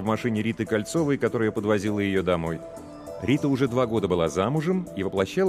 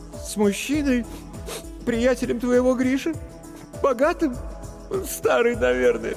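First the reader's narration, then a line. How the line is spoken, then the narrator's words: Sobbing. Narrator (Russian): всхлипнула Маша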